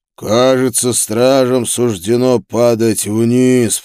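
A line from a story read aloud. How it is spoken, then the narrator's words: Demon's growl. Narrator (Russian): прорычал демон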